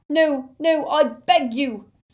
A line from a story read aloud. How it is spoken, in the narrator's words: sobbed Xenophilius